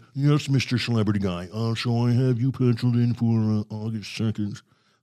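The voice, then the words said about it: Posh rich-man accent. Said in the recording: “put in your Thurston Howell accent”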